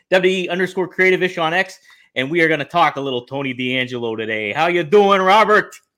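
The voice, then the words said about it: Put-on Italian accent. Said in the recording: “you're doing this accent ... has set us Italians back a century”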